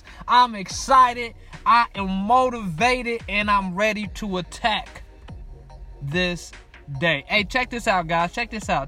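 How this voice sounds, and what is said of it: Energetic, pumped-up delivery. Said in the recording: “I am pumped up. You can hear it in my voice.”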